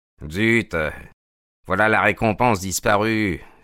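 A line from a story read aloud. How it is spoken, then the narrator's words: Sullen tone. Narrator (French): fit-il d'un ton maussade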